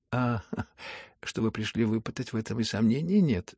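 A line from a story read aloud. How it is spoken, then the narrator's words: Laughing. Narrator (Russian): засмеялся наконец и князь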